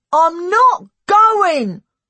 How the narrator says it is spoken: said loudly

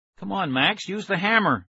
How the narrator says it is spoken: Aaron begged

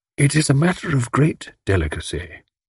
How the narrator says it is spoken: said the older man, dropping his voice confidentially

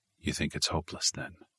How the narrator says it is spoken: Stark asked just above a whisper

